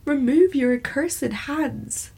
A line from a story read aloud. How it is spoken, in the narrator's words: I shrieked